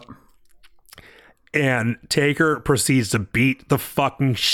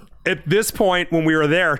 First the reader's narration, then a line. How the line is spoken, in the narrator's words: Chow yelled